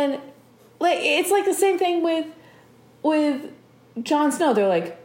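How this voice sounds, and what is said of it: Usual voice. Nothing is said of it.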